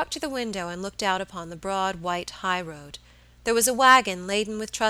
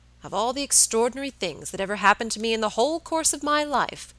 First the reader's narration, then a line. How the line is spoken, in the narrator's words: said Mr